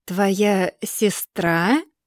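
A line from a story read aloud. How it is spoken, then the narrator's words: Slow, savoring. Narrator (Russian): Арген проговаривает это слово медленно, словно смакуя каждую букву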